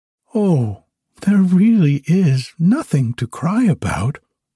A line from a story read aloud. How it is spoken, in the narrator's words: answered the wood pigeon soothingly